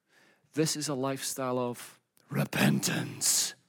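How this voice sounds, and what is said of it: Mock-scary ominous voice. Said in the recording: “It's a scary word, so I'm using my scary voice.”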